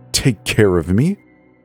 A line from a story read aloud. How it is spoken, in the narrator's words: I spat